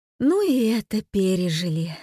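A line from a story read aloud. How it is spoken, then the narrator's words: Sighing. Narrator (Russian): вздохнула Ася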